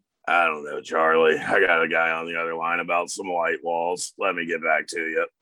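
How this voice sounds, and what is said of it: Impression of Brown's voice. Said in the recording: “Brown quotes... Do it in the voice... you have a very good impression... it's the cigarettes”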